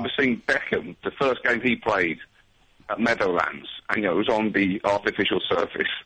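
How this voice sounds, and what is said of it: Usual voice. Nothing is said of it.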